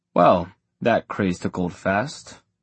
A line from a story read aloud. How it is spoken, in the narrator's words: Magnus said with a sigh